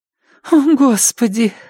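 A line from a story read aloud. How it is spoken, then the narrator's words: Muffled gasp through fingers. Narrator (Russian): выдохнула сквозь прижатые ко рту пальцы девушка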